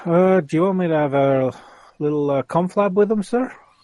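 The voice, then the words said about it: Odd put-on accent. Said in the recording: “what the hell accent? Can I just say, what accent was that? ... you don't get to do the accent and criticise it”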